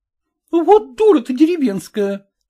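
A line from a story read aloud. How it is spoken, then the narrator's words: Exclamation. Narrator (Russian): воскликнула горничная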